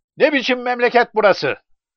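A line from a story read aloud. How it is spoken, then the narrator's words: Shouting. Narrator (Turkish): diye bağırdı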